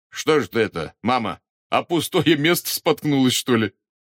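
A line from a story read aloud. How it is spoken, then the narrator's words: Relieved laughter. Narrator (Russian): облегченно рассмеялся Волькин отец, довольный, что бабушка нисколько не пострадала при падении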